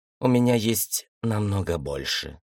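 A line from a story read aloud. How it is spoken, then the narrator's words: Grim. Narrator (Russian): мрачно сказала Мария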